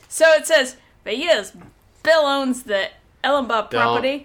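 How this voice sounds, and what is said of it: Put-on Australian accent. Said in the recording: “Don't do Australian. The Australian accent. Okay, do not.”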